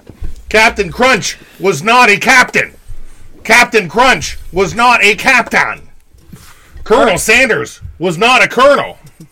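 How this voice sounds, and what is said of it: Impression of Ron Burgundy character. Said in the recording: “how I do my voice exercises ... Ron Burgundy.”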